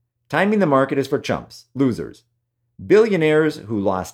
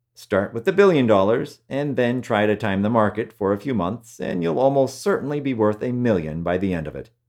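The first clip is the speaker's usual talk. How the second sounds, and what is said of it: Sarcastic tone. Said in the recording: “Was that sarcasm? Yes, my friends, that was sarcasm.”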